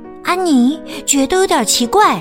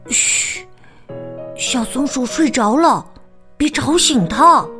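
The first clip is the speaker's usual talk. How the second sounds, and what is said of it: Quiet, hushed voice. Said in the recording (Chinese): “小声”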